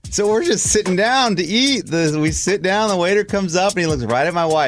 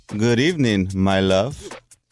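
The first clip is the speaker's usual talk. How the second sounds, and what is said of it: Put-on Latin accent. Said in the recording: “He's like a Latin guy. You know, he's got an accent. ... I don't talk like the way he did. He talked like this.”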